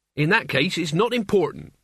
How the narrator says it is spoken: said Mort firmly

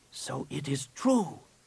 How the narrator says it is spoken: whispered

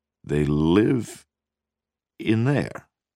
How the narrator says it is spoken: He asked slowly

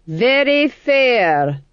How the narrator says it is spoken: he said loudly

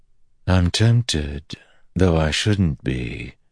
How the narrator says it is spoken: she said

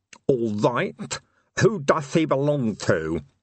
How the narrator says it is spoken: he lisped

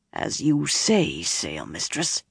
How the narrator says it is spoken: he rasped

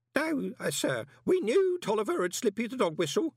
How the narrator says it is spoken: one of them began, looking nervously

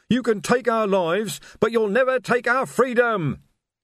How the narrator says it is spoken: he screamed

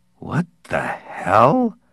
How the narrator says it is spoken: Parkhurst muttered, dazed

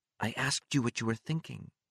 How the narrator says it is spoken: Mary whispered

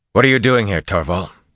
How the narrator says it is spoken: Rand asked roughly

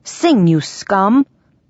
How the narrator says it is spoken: he roared

